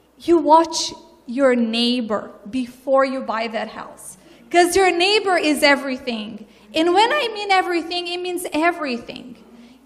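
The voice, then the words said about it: Brazilian-accented English. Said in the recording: “you hear my accent. I am from another culture. I'm from Brazil.”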